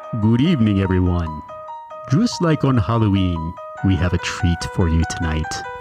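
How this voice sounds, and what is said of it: Speaks in a put-on accent. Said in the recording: “Great accent... But you are Romanian.”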